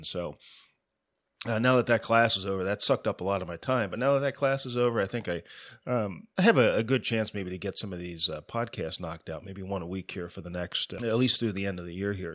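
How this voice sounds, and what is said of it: Scratchy voice with a cold. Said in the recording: “my voice sounds a little bit strange here today. I'm kind of fighting a little bit of a cold ... my throat's getting a little bit scratchy on me ... a little bit of a frog in my throat”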